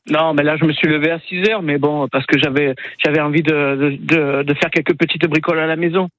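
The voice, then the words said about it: Slight southern French accent. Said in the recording (French): “vous avez un petit peu l'accent du Sud ... Eh ben oui, un peu ... Je suis un Marseillais expatrié.”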